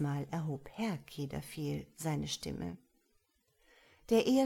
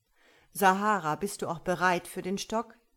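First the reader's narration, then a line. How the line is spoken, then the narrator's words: Asked sternly. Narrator (German): fragte Naso nun das Mädchen streng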